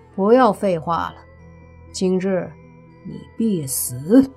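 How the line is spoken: Calm, indifferent. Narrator (Chinese): 莫凡淡淡的说

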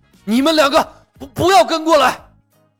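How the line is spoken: Shrill anguished shout while running. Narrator (Chinese): 一边跑一边凄厉地喊

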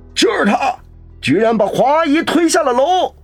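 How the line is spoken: Middle-aged man shouting accusingly. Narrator (Chinese): 那个中年人指着云峰喊道

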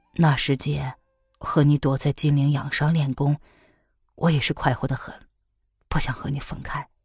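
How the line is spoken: Soft whisper in ear. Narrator (Chinese): 沈轩又凑到他的耳边，轻声的道

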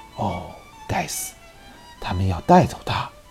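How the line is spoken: Low voice. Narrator (Chinese): 楼上的达达尼昂低声说

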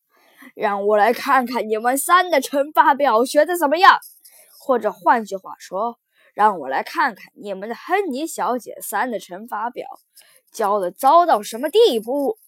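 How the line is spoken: Roaring. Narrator (Chinese): 特朗奇布尔咆哮着

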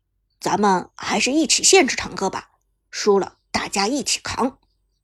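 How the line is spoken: Low voice. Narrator (Chinese): 杰克低声说道

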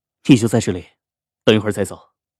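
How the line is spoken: Low, grave. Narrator (Chinese): 沉声说着

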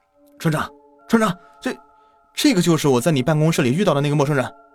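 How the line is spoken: Startled shout. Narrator (Chinese): 我几乎就惊跳了起来 向船长大喊

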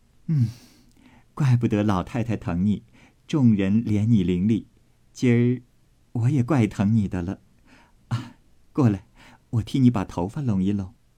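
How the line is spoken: Laughing. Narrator (Chinese): 宝钗笑道

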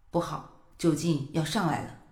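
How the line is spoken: Inner sigh. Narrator (Chinese): 心里暗叹一声

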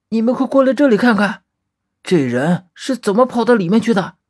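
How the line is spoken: Shouting from afar. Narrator (Chinese): 十三在另一个角落里喊

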